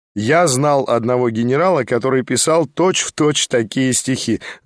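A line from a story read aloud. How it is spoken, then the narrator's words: Laughing remark. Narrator (Russian): заметил я, смеясь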